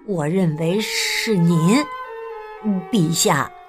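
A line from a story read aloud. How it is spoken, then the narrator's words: Nervous quiet voice. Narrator (Chinese): 首相很紧张 小声的说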